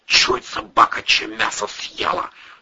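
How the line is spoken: Whispered in ear. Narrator (Russian): шепнул в ухо Вовчик

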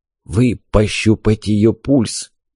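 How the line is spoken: Whispered request. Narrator (Russian): почему-то шепотом попросил он

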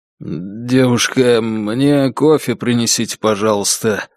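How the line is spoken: Strained choked voice. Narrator (Russian): попросил Егор сдавленным голосом

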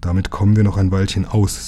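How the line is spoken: Plain. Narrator (German): sagte Lukas

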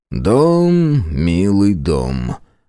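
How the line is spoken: Grumbled. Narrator (Russian): буркнул я

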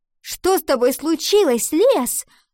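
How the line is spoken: Angry shout. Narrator (Russian): сердито выкрикнула она

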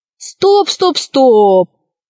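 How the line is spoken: Shouted. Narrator (Russian): закричал Пашка

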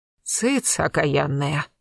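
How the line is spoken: Straining old woman rasping. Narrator (Russian): напрягаясь от усилий, прохрипела старуха

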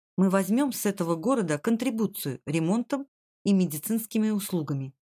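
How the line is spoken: Plain. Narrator (Russian): сказал Джим

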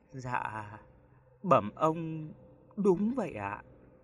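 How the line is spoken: Soft trembling reply. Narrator (Vietnamese): Anh phu xe cả người run lên bần bật, giọng run run đáp khẽ

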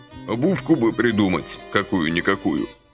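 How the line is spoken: Grumbling. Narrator (Russian): проворчал он

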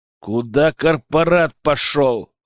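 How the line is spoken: Growling. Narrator (Russian): рыкнул я

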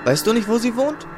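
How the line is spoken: Calling after someone. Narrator (German): rief Samuel ihm hinterher

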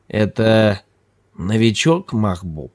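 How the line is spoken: Lazy question, mouthpiece in mouth. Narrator (Russian): лениво спросила Ханифа, даже не потрудившись вынуть мундштук изо рта

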